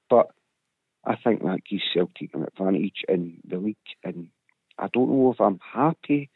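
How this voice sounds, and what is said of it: Strained, struggling voice. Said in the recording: “sorry for my voice... I really am suffering here... I can hear... We don't want to stress the voice too much”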